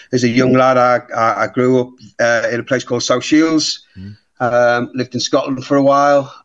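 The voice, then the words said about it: Northeast English accent. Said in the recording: “you can tell by my accent. I was originally from the northeast.”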